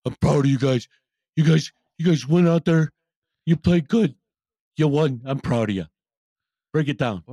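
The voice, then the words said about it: Imitates another person's voice. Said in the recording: “Is that your real Dan Campbell impression? ... I've never heard Dan Campbell sound like that.”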